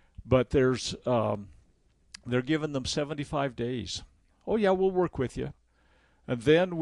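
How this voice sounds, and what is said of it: Usual voice. Nothing is said of it.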